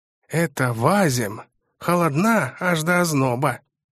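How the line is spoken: Muttering near ear. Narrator (Russian): пробурчал над ухом тот самый мышастый господин

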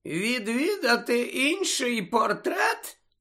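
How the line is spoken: Squeaky, fake yawning. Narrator (Ukrainian): перепитав Фінеас писклявим голосом і доволі штучно позіхаючи

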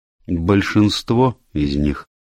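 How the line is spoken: Gloomy confirmation. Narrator (Russian): мрачно подтвердила миссис Сатклифф

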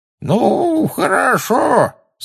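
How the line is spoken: Quavering old voice. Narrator (Russian): сказал он дребезжащим старческим голоском

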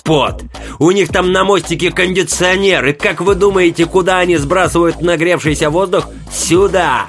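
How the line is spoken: Sudden wild yell. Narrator (Russian): Вдруг дико заорал он

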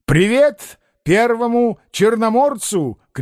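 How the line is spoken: Shout over engine roar. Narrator (Russian): крикнул Остап, когда машина с тракторным грохотом проносилась мимо Корейка

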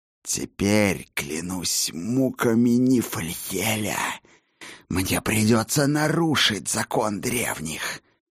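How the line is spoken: Cobra-like hiss. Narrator (Russian): Точно готовая к броску кобра прошипел Мерлин

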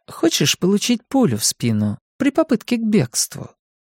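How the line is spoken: Sweet-toned question. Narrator (Russian): милым тоном спросила Артега

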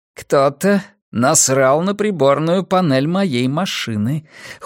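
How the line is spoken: Cold. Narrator (Russian): холодно проговорил он

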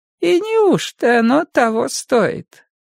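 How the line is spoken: Sweet, hinting voice. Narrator (Russian): спросила она добреньким голоском, но вроде как намекая

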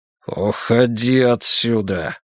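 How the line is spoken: Through gritted teeth. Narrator (Russian): процедил Каракс

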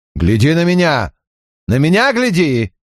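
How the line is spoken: Shout. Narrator (Russian): крикнул ему Чак

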